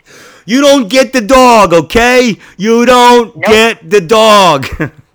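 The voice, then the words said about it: Imitates another person's voice. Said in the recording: “My Judge Judy impression.”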